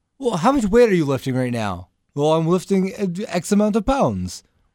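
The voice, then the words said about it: Imitates another person's accent. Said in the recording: “You don't need to do the accent. ... I like doing the Claudio.”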